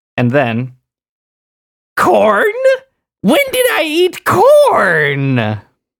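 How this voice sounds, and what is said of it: Imitates another person's voice. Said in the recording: “That was a good impression as well, actually... Her voice.”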